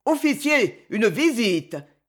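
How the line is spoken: Impassive shout, soldier. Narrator (French): cria d'une voix impassible l'un des 2 soldats

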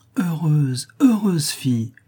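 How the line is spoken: Emotional exclamation. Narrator (French): s'écria Marie aussitôt qu'elle put parler

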